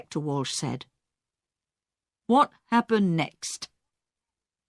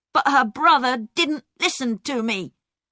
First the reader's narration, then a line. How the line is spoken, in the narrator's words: Peter said angrily